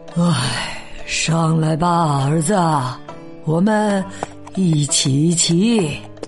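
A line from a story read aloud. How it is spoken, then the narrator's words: Sighing, resigned. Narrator (Chinese): 磨坊主不想被他们说闲话，叹了口气说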